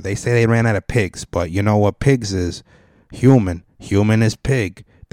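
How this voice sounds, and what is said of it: Put-on New York accent. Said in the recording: “I got a New York accent all of a sudden”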